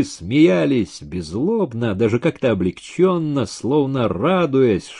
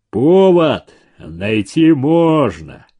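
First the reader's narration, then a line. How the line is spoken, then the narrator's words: Deep booming bass. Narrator (Russian): прогудел бас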